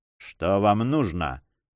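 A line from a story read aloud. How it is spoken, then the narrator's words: Gloomy voice. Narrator (Russian): спросил Дон Фернандо мрачным голосом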